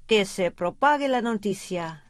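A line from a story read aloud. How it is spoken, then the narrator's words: Plain. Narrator (Spanish): dijo el ñandú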